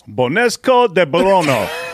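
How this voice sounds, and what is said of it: Put-on French accent. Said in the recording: “How'd you like my French accent right there?”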